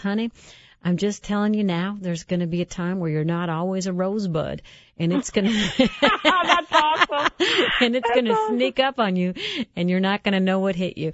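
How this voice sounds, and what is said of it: Strong Southern American accent. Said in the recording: “She had this strong Southern accent.”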